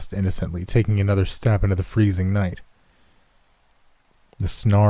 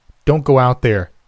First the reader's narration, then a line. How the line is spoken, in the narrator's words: he shouted